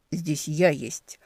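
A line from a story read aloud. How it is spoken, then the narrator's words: Grumbling. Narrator (Russian): проворчал Демьян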